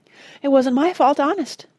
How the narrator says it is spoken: pleaded Ethelred

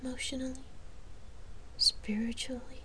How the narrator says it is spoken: She said even more quietly

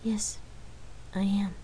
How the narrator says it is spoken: Lark whispered sadly out of earshot of Rain

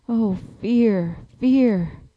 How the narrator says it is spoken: the two spies muttering

